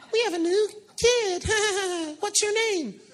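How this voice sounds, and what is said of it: Imitates a Sunday school teacher's voice. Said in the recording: “that's what her voice is really like”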